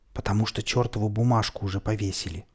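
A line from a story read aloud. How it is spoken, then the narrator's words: Whisper. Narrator (Russian): и я тоже ответил шепотом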